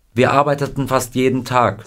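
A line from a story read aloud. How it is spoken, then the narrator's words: Plain. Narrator (German): sagte Scotty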